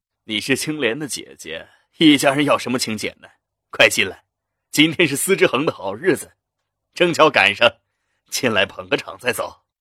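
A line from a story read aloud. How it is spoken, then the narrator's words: Slight smile. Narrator (Chinese): 赵信简微微一笑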